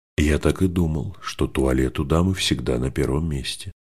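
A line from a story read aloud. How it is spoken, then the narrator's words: Calm. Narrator (Russian): спокойно сказал сэр Уоми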